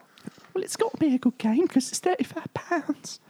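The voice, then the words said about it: Imitates another person's voice. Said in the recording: “my best Ben accent”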